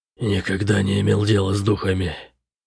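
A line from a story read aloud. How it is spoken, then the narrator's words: Slightly hoarse. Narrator (Russian): сказал он слегка хриплым голосом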